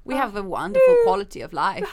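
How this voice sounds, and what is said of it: Put-on Scandinavian accent. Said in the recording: “such a Scandinavian thing ... I'm not going to do the accent. ... That was very offensive.”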